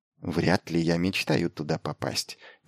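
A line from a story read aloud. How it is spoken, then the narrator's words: Quiet reassurance. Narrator (Russian): тихо заверила она его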